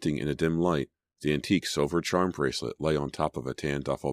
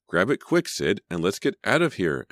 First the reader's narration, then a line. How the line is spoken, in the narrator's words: Emma groaned